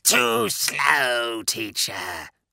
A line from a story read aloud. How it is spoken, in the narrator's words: the grating snarl